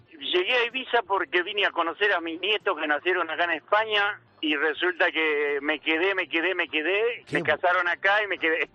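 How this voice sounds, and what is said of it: Argentine Rosario accent. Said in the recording (Spanish): “te noto un acento de que no eres español ... No, rosarino.”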